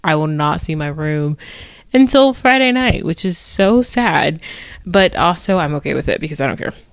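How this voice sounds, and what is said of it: Tired, low-energy voice. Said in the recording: “you can hear the exhaustion in my voice. ... There's like no energy coursing through my body right now at all”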